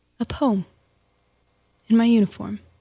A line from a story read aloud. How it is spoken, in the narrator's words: Very quietly, he said